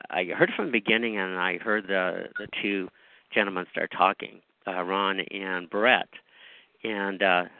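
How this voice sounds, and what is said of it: Hoarse voice. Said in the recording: “I'm a little hoarse right now, so... may be coughing and hacking a little bit”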